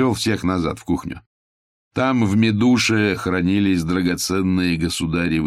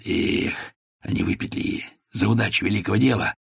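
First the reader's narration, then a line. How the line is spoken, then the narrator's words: Playful whisper. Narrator (Russian): Шепнул задорно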